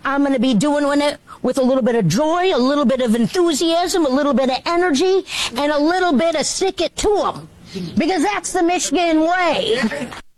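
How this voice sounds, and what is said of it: Exaggerated Minnesotan-sounding enthusiastic delivery. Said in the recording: “This is very Minnesota-y or Canadian-y ... bad Chris Farley impression ... sounds just like Chris Farley”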